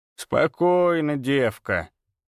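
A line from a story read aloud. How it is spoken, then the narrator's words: Creaky rasp. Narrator (Russian): проскрипела она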